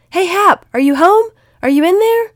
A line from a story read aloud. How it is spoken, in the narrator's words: he yelled at the top of his lungs